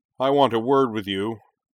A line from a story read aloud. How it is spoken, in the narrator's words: Shuten bellowed